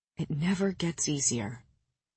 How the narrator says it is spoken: he whispered

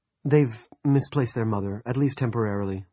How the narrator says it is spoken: the woman said in a low voice

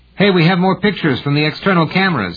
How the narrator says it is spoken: yelled

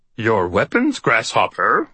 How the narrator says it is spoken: I said in my Yoda voice

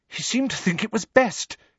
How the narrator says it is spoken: said Hermione, rather breathlessly

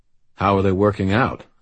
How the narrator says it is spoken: I asked

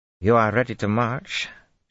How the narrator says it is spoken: she demanded curtly

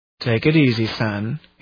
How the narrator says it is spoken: he said gently

